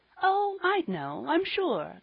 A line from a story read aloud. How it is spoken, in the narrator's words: laughed Polly